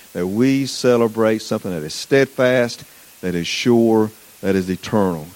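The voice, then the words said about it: Southern US accent. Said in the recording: “People say I have a southern accent. ... You're nodding your head, absolutely.”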